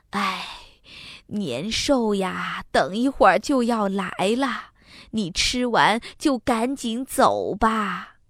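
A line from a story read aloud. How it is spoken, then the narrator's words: Old woman sighing tearfully. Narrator (Chinese): 老婆婆叹口气，流着眼泪 还对他说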